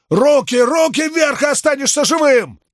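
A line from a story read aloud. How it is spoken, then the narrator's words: Loud shout. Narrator (Russian): Громко крикнул он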